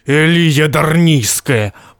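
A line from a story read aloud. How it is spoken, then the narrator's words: Muffled boom from helmet. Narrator (Russian): прогудел из-под шлема Грегор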